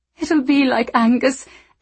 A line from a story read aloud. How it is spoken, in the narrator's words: Anna had said, her face twisted in grief